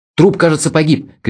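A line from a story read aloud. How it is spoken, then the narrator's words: Shouted. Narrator (Russian): крикнул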